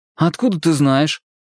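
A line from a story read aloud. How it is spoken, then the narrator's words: Laughing. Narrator (Russian): Нита снова рассмеялась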